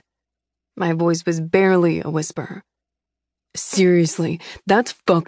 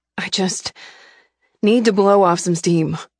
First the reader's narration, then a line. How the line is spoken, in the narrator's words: I blurted out